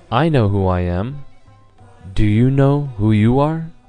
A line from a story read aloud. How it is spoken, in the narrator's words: Lord Buddha again calmly he said